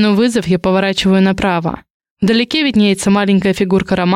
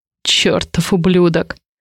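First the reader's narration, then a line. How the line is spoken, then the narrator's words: Growling through teeth. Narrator (Russian): Рычу сквозь зубы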